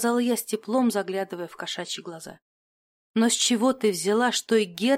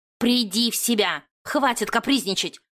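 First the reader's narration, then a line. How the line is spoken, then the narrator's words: Stern growl. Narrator (Russian): рыкнула она строго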